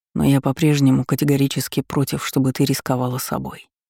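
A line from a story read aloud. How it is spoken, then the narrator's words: Whisper. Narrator (Russian): прошептал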